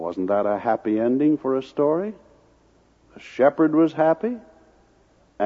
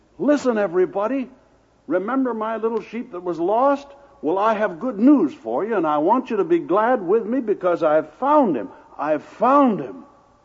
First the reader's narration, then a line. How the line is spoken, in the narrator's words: he called his friends and neighbors and exclaimed